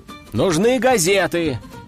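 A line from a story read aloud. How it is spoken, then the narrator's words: Shout. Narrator (Russian): крикнул я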